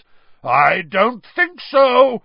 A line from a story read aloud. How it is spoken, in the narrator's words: roared Moody